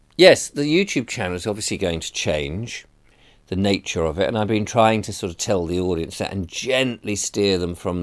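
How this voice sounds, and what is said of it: Hoarse, croaky voice. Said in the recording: “I sound a little hoarse ... why is my voice a bit croaky?”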